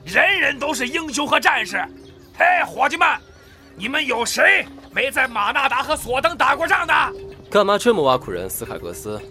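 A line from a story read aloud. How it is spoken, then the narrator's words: Shouting at a group. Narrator (Chinese): 谢尔顿·斯卡格斯冲身边的矮人们大吼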